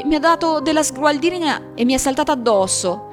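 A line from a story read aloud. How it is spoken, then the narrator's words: Whimpering. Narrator (Italian): piagnucolò lui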